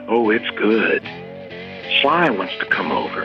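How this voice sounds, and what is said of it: Sultry, seductive voice. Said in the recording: “this voice, very sexy voice”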